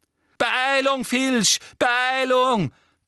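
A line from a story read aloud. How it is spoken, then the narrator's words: Shrieking. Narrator (German): kreischte Umbridge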